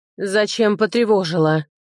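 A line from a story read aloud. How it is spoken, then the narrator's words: Low droning hum. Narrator (Russian): прогудела она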